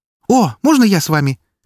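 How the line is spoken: Sudden exclamation. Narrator (Russian): вдруг воскликнула Фокси

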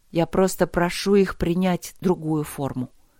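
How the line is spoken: Plain. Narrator (Russian): сказала она

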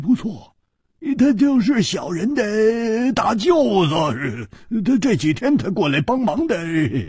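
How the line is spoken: Ingratiating, smiling. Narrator (Chinese): 那个马脸汉子居然笑着，陪着笑说

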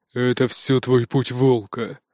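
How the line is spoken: Gloomy declaration. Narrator (Russian): мрачно заявил мне Нуки

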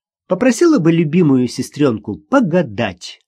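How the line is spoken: Cheerful, with laughter. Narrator (Russian): сказала Ксюша, и они обе весело рассмеялись

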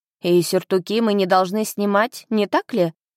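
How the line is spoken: Snort. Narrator (Russian): хмыкнул Марк

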